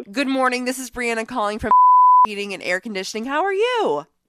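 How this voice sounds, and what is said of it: Polite customer service voice. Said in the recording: “your best customer service voice”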